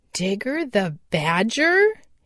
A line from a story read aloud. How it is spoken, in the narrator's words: he exclaimed